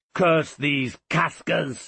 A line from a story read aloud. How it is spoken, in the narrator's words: he shouted